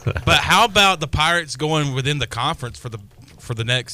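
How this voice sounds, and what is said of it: Usual voice. Nothing is said of it.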